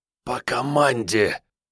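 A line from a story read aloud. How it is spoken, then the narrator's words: Hoarse, unrecognizable wheeze. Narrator (Russian): просипел неузнаваемым голосом сапер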